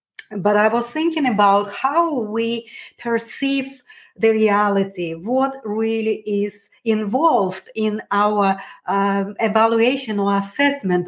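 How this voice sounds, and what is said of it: Hoarse, fading voice. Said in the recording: “I feel a little bit unwell, I'm losing my voice.”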